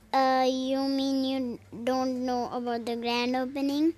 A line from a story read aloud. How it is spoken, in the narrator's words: He muttered